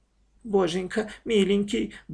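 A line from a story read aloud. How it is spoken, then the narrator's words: Repeating mumble. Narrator (Russian): бормотала Маша, прислушиваясь, что говорит сестра, и повторяя за ней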